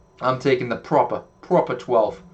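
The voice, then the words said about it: Poor put-on accent. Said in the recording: “It's probably a terrible accent.”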